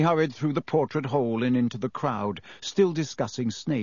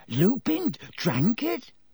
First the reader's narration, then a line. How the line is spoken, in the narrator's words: he gasped